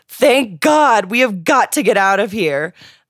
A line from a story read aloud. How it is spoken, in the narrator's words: exclaimed